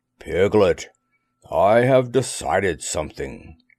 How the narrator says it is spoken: Pooh said in a very solemn voice

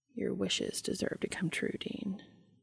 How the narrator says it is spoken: Under his breath, Dean heard Castiel add

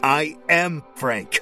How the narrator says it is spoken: screamed

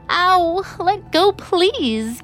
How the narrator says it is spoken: Kate begged

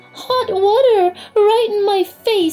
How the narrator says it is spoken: spluttered Marie

